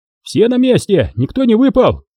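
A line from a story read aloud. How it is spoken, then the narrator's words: Shouting. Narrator (Russian): закричал туркмен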